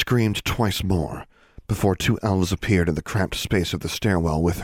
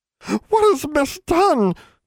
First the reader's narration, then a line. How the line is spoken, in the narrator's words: squealed one elf